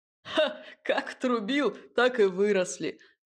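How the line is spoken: Man's short laugh. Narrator (Russian): хохотнул другой мужик

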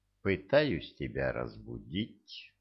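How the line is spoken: Calm. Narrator (Russian): спокойно сказал

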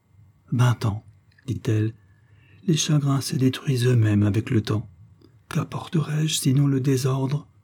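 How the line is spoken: Faltering voice. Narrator (French): d'une voix qui défaillait presque

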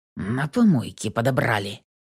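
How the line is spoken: Through gritted teeth. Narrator (Russian): процедил Миронов, скрипя зубами

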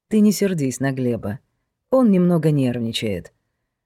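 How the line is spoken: Quiet. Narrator (Russian): проговорила Юля негромко

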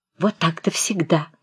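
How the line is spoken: Aunts whispering. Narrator (Russian): зашептали тетки

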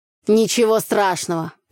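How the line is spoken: Grumbling. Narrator (Russian): проворчал Митька

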